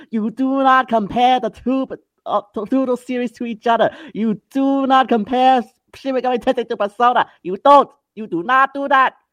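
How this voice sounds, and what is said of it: Imitates another person's voice. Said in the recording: “my uncle impression”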